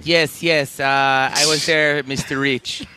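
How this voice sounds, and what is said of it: Imitates another person's voice. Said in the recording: “what kind of impersonation was that?”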